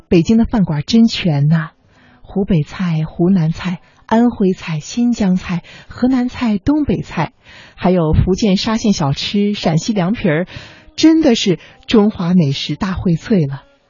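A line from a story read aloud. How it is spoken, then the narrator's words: Admiring, mother. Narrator (Chinese): 我的母亲刚来北京的时候，赞叹说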